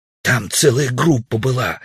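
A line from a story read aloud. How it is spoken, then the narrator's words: Defensive loud whisper. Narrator (Russian): оправдывался Удалов громким шепотом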